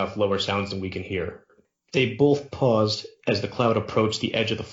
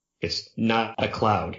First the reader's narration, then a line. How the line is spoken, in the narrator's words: he stammered